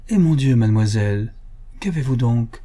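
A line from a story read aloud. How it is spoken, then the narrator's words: Exclaiming. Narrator (French): s'écria M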